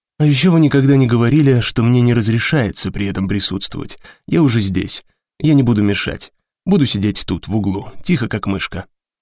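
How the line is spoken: Plain. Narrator (Russian): ответил Драйер

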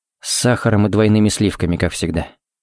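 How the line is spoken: Quiet. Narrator (Russian): сказал тихо

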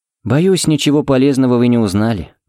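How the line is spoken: Sigh. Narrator (Russian): вздохнул Фернандес

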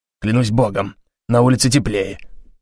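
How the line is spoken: Grumbled. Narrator (Russian): пробурчал

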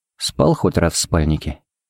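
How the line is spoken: Quiet question. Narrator (Russian): поинтересовался Хари негромко

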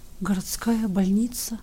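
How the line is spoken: Quiet astonished whisper. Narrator (Russian): губы тихо прошептали

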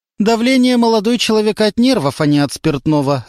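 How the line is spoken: Sharp reply. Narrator (Russian): резко ответила Любовь Николаевна

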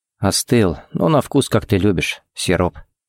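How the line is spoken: Quiet remark. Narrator (Russian): заметил тихо

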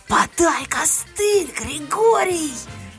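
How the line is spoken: Howling shout. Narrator (Russian): я взвыла и, крикнув

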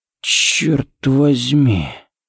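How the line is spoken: Breath near ear. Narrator (Russian): выдохнул Харри у него над ухом

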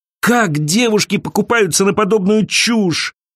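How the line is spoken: Groaning. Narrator (Russian): простонала Элиза

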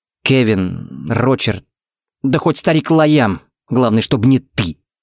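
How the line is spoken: Through gritted teeth. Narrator (Russian): процедил Тикс

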